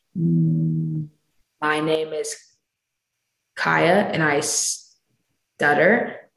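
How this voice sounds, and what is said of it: Deliberate stuttering speech. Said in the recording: “pseudo stutter, which is where I'm basically mimicking my own stutter”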